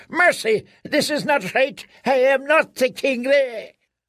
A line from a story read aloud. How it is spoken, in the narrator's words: cried